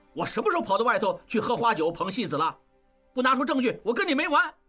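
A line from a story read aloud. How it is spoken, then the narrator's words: Furious. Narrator (Chinese): 应震怒起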